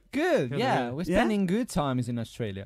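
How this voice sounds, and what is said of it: Italian-English-American mixed accent. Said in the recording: “I love the accents. ... It's in between the Italian, the English, yeah. American.”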